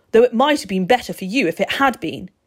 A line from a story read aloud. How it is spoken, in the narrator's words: boomed